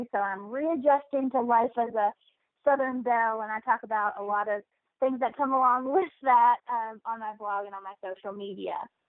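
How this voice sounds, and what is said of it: Slight Southern Kentucky accent. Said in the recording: “I love your little accent. It's so cute... it is adorable”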